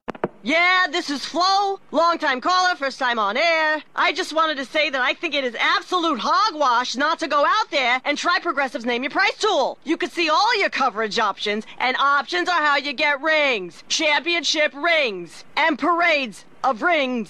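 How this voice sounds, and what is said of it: Sports talk radio caller voice. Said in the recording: “my impression of someone calling into Sports Talk Radio”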